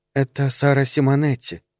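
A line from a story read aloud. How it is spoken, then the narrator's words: Soft voice. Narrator (Russian): сказала сеньора мягким голосом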